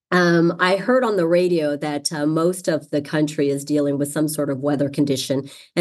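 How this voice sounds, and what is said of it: Congested voice from a cold. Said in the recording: “as you can hear from my voice, I got a nice little cold”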